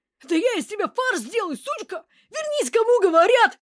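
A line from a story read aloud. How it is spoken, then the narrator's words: Yelling over each other. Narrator (Russian): Обмешурившиеся горе подручные молотка орали наперебой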